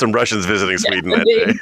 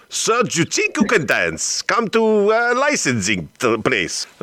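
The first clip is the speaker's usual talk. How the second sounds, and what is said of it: Put-on Russian accent. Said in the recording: “What accent? ... There were some Russians.”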